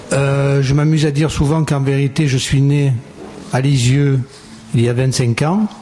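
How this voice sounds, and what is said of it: Marseille French accent. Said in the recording (French): “Je suis de Marseille, vous l'avez compris ? Non ? Par l'accent ?”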